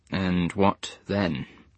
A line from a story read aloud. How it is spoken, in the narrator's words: said Muller quietly